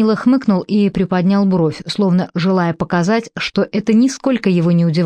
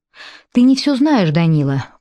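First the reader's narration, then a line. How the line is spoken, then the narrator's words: Tired voice. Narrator (Russian): произнес Карл устало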